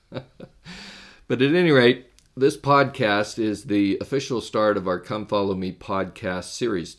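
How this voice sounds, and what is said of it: Deeper than usual, sick voice. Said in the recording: “my voice is a little bit deeper than what you may be used to ... I got hit with a little bit of a cold”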